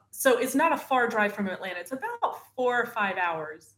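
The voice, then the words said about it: Southern US accent. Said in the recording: “northern Florida, like near Alabama, which is where the accent comes from”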